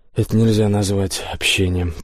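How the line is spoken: Grumbling. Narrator (Russian): пробурчал Мин

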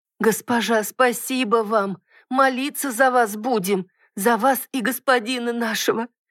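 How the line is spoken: Sobbing new mother. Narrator (Russian): всхлипнула мать-роженица

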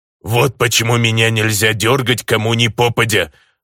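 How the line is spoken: Growled, orc. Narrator (Russian): рыкнул орк

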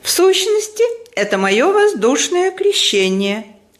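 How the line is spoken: Cheerful. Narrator (Russian): весело сказала она

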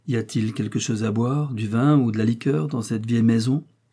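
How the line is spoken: Plain. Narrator (French): demanda-t-il

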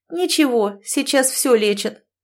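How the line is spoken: Cool, calm reply. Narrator (Russian): хладнокровно отозвалась Лёля

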